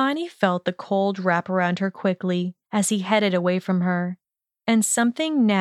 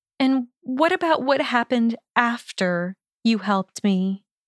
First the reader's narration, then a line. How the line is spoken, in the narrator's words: her voice had wavered